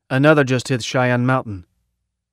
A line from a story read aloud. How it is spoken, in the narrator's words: Wright said